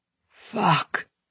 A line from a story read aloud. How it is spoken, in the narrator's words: he groans